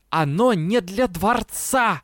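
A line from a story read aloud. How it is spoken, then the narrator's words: Hiss breaking into growl. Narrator (Russian): Шипение с прорывающимся рычанием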